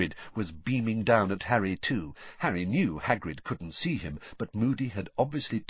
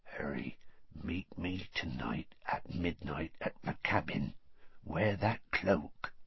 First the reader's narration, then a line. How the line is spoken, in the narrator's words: said in a whisper so low that only Harry could hear it